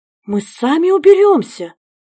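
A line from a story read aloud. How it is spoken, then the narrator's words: Frightened exclamation. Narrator (Russian): испуганно воскликнула горничная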